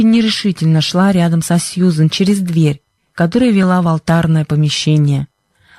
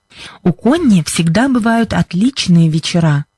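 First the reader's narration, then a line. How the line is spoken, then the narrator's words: Plain. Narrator (Russian): сказала Сьюзен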